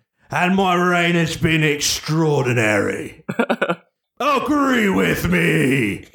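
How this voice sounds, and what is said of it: Half Australian accent. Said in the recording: “he's doing like half an Australian accent here”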